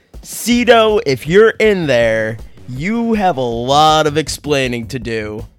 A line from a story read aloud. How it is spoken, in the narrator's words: Vipira … yells out